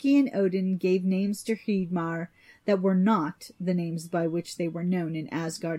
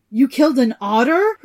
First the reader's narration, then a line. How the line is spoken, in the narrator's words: Hreidmar cried